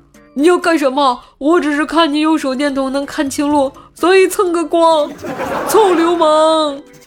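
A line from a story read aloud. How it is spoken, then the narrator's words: Big man yelling while struggling. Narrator (Chinese): 大汉边反抗边叫道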